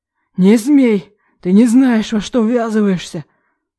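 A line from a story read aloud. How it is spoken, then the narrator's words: Hoarse wheeze, father. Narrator (Russian): захрипел отец с той стороны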